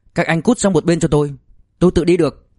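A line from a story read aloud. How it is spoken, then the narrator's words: Angry. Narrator (Vietnamese): Tào Thục Tuệ nhíu chặt mày tức giận nói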